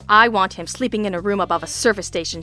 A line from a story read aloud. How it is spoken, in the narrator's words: she said with a snarl